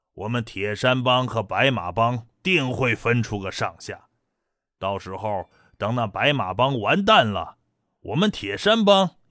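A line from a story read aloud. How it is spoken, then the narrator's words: Loud laughter. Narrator (Chinese): 那二当家大笑道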